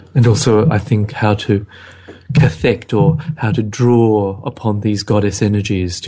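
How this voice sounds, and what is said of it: Late night radio voice. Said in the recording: “we have the late night radio voices ... Oh, I like the voice. Can we do the voice?”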